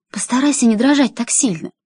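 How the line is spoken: Fervent whisper. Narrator (Russian): горячо зашептала она

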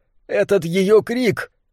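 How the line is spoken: Sobbing. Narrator (Russian): Немрод продолжал рыдать

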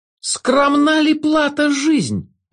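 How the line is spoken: Shouting. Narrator (Russian): уже кричал трубочист

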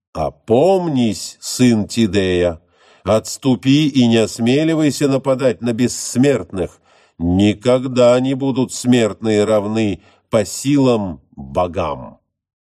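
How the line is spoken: Menacing shout. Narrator (Russian): грозно крикнул ему Аполлон

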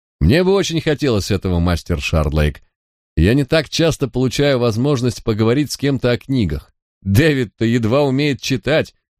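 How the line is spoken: Joking tone, hidden barb. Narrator (Russian): заявил Хью шутливым тоном, за которым пряталась колкость

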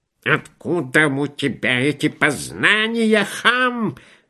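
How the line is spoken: Shrill squeal. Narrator (Russian): взвизгнул подпоручик Дуб

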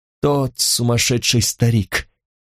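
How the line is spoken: Hoarse. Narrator (Russian): сказал он хрипло

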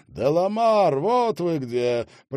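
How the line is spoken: Booming voice. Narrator (Russian): прогремел над головой Марселя голос

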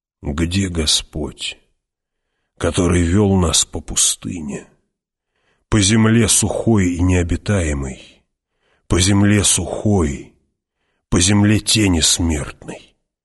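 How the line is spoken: Muttered. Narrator (Russian): пробормотал он

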